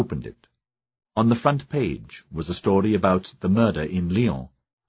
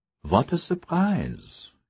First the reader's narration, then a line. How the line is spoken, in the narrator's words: Gabriel murmured